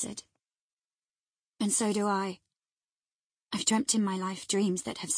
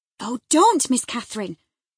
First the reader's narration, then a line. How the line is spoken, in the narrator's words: I cried